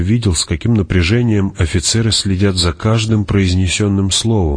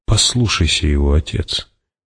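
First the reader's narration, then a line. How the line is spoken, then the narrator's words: Quiet. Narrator (Russian): тихо сказал Пауль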